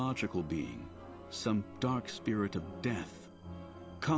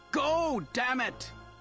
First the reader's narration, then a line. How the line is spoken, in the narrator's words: Isfahl shouted